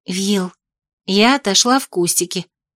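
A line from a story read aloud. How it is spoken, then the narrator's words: Confiding whisper. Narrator (Russian): доверительным шепотом ответила я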